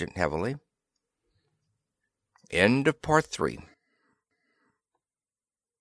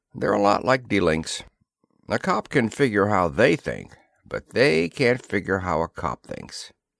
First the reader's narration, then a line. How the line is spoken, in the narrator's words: rumbled the sergeant